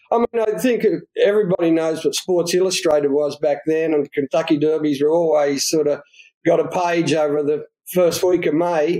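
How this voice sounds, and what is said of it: Australian accent. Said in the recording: “as people can tell from your accent, you are from Down Under, from Australia.”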